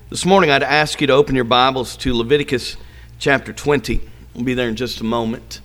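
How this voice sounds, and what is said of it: Voice not fully recovered from illness. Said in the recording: “my voice is not 100% back. I still have a cough”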